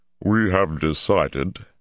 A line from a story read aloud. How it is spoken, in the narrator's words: Hammond said stiffly